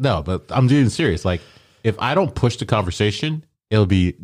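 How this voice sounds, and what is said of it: Usual voice. Nothing is said of it.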